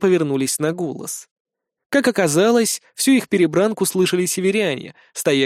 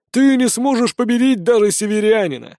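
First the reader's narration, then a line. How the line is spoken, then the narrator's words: Laughing. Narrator (Russian): рассмеялся тот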